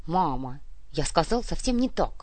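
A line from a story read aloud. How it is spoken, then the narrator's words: Embarrassed mumble. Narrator (Russian): смущенно пробормотал Эдуардик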